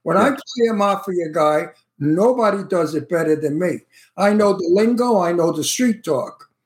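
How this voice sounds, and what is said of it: New York Brooklyn accent. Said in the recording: “I have a New York accent, a Brooklyn accent.”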